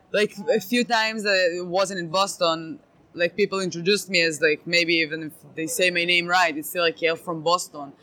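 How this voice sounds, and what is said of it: Israeli-accented English. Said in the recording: “I'm from Israel ... a weird accent. That's not the Bostonian accent ... What is that accent? I've never heard that before.”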